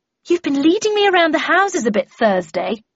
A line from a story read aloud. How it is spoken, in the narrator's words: she said testily